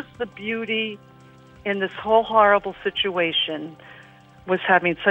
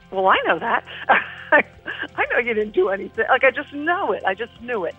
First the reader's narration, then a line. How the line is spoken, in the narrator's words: I half chuckled to myself